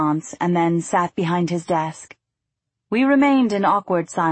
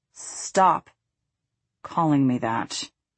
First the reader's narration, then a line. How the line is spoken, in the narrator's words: he said, lowering his voice at the end